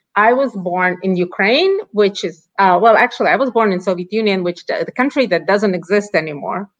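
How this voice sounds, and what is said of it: Non-native English accent. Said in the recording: “as you can probably sense by my accent, I wasn't born in the United States”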